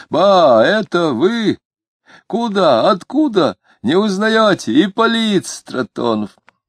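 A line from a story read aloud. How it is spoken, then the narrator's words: Loud shout. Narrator (Russian): большой человек закричал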